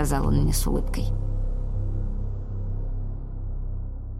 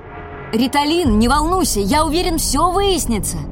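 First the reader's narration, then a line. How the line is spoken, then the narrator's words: Shouted after someone. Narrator (Russian): крикнул он мне вдогонку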